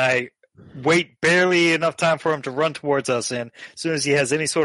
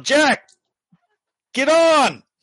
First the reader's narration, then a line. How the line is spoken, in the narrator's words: yelled